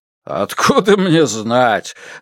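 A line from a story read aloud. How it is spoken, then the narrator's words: Laughing. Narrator (Russian): рассмеялся Хан Вэймин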